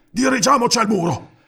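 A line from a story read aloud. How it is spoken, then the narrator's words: Panting. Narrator (Italian): ansimò Nistor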